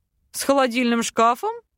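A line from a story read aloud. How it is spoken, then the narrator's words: Clarifying question. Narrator (Russian): уточнил принц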